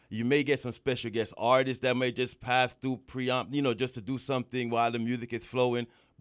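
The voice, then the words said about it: Guyanese accent. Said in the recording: “my Guyanese accent”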